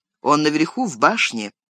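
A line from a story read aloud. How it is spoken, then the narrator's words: Plain. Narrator (Russian): ответил Леголас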